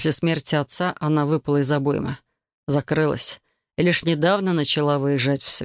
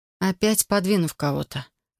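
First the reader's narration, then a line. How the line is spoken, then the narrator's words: Sad wry chuckle. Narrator (Russian): грустно усмехнулась я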